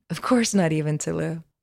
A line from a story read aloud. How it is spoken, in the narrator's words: Lelora laughed